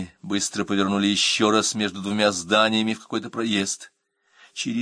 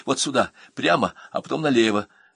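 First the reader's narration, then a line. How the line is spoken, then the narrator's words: Excited whisper. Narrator (Russian): человек на заднем сиденье взволнованно зашептал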